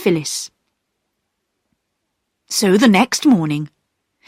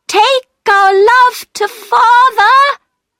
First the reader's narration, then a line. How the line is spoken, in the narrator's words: they cried